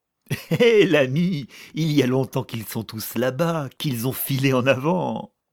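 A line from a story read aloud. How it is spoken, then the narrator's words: Soldier laughing. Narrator (French): lui répondit le soldat en riant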